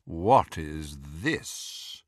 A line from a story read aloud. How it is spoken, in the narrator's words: The dreadfully familiar, drawling voice of Lucius Malfoy